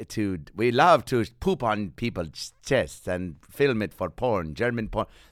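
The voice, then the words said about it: Mock German accent. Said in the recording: “That's not a real German accent”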